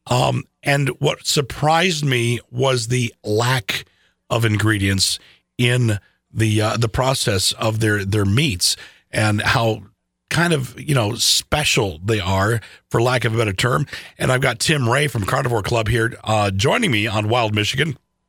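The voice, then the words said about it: Scratchy, hoarse voice. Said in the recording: “I apologize for my voice. I'm a wreck today ... scratchy voices”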